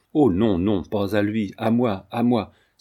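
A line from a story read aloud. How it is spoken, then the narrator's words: Pleading exclamation. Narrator (French): s'écria-t-il, le geste et le regard suppliant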